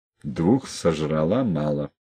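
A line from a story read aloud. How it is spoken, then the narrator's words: Through gritted teeth. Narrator (Russian): процедил Колька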